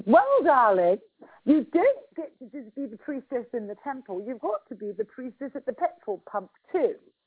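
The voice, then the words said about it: Mock posh English accent. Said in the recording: “she said in her mock English accent, because she was taking the piss out of me”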